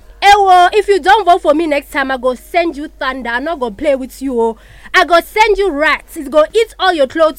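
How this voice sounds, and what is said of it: Put-on Nigerian accent. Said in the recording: “move on ka accent ya ma Nigeria”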